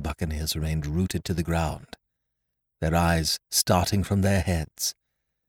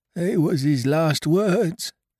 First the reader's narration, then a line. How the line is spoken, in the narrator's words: moaned Morgan